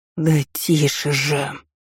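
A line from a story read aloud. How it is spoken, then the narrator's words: Groaned. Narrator (Russian): простонал доктор Поль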